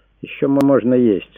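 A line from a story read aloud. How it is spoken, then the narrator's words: Guilty. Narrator (Russian): сказал он виновато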